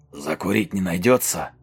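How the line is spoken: Husky voice close by. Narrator (Russian): Совсем рядом раздался сиплый голос

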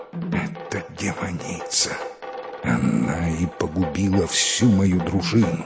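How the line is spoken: Horrified whisper. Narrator (Russian): принц невольно с ужасом прошептал

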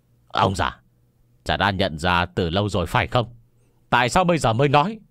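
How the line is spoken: Fierce roaring voice. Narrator (Vietnamese): Bạch Vô Cầu gầm lên một tiếng, hung dữ nói

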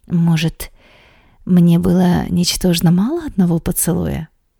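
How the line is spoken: Quiet. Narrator (Russian): Тихо говорю я

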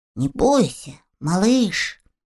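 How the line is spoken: Trembling voice. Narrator (Russian): дрожащим голосом проговорил мумитроль

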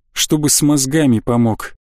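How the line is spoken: Sad sigh. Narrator (Russian): грустно вздохнул

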